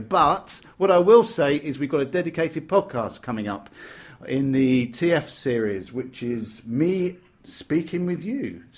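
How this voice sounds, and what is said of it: British accent. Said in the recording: “you just have the most outstanding British accent”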